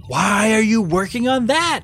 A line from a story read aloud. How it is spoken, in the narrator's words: shouted Finn